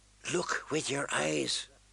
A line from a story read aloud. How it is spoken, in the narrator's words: Sirio whisper